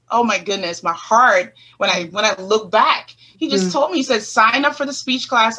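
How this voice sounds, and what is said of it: Speaking with a twang accent. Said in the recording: “my twang like I'm doing now ... the accent that you had when you first came here”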